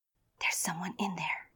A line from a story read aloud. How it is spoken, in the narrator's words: she whispered